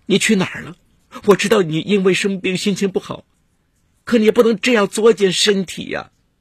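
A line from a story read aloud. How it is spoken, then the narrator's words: Bursting into sobs. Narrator (Chinese): 王莹一下大哭起来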